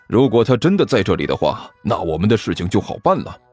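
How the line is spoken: Sighing. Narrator (Chinese): 关小雨叹了口气

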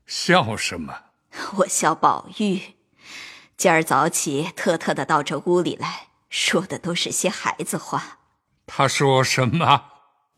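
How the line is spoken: Laughing retelling. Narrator (Chinese): 王夫人 笑述

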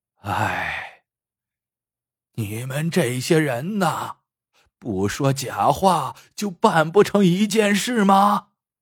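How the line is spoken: Sighing remark after pause. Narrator (Chinese): 半晌，才感叹了一句

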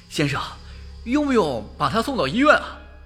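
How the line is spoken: Breathless question. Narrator (Chinese): 一个保安气喘吁吁地问道

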